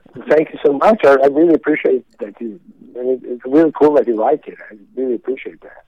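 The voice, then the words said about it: Swedish accent. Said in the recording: “I hear an accent. I hear an accent. But from Sweden”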